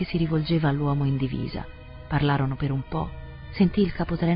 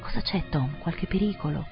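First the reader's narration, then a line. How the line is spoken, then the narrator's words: Whispering. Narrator (Italian): con un sussurro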